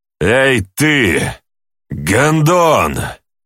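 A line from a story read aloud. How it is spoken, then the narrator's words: Half-growled. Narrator (Russian): То ли сказал, то ли прорычал я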